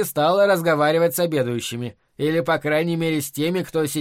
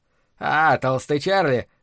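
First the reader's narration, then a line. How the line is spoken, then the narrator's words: Unpleasant chuckle. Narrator (Russian): неприятно хохотнул Грэхэм Хорикс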